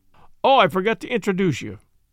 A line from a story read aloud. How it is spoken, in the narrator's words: said Inspector Japp